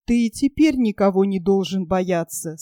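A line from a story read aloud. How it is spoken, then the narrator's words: Plain. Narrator (Russian): сказала Акка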